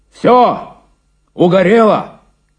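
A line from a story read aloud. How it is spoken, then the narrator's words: Shouting into phone. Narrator (Russian): закричал в трубку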